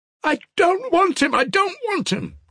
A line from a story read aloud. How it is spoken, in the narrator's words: cried Ilusha with a mournful break in his voice